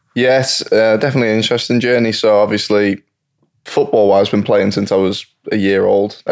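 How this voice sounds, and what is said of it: English accent. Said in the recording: “the accent sounds very different ... I grew up in England”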